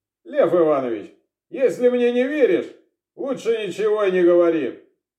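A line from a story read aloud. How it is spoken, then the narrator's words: Curt dry retort. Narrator (Russian): сухо отрезал Корчагин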